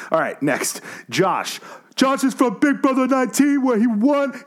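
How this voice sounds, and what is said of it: Usual voice. Nothing is said of it.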